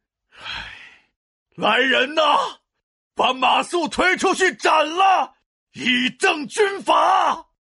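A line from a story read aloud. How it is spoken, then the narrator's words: Tearful shout. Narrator (Chinese): 诸葛亮 眼含着泪水喊道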